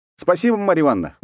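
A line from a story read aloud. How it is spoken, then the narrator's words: Snorting. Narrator (Russian): хмыкнул я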